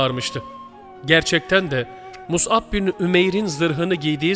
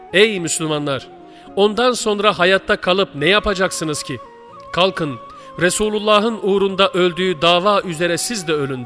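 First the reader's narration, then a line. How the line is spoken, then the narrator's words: Plain. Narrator (Turkish): dedi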